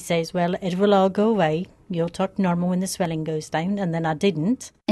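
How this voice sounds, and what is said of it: Hybrid English, Irish, Scottish-sounding accent. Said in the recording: “The pattern of her speech is foreign to what she spoke previously, and to my ear, sounds like some sort of hybrid of English accent, some Irish or Gaelic intonations, and even some Scottish flavor. But it's consistent.”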